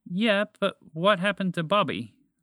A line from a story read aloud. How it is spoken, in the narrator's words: Spaceship asked with more desperation in her mechanical voice